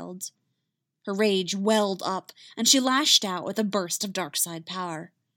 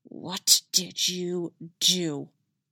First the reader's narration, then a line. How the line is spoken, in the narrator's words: She hissed